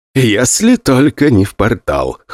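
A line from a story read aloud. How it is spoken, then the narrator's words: Smirking grunt. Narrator (Russian): хмыкнул тот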